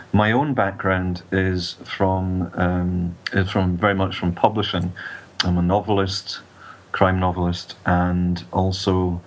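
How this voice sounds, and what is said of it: Scottish accent. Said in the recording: “as you can probably tell from the accent. I'm um, Scottish”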